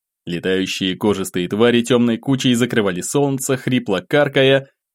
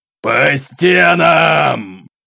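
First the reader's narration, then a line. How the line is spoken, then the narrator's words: Roared command. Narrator (Russian): Взревел атаман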